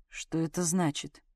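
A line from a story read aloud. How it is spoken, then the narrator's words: Grim voice. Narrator (Russian): мрачным голосом осведомился Сашка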